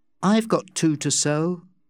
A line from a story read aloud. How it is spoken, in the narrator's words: Becky said calmly